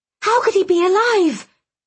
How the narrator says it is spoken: I gasped

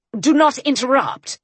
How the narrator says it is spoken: he said harshly

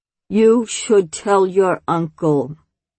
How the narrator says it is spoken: she said, very, very slowly, laying each word next to the one before, like a long, straight line of heavy, round stones

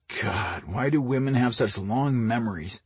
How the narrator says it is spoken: Mike groaned

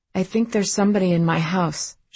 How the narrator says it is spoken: said shakily

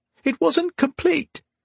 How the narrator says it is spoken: he squeaked

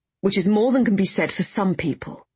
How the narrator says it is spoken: Warren snapped

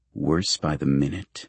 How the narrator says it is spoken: Carlisle mutters

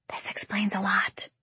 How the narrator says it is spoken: Violet whispers in my ear

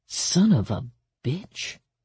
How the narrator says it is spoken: he murmured

